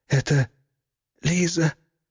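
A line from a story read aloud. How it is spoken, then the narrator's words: Strained, forced out. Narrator (Russian): выдавила из себя Юлия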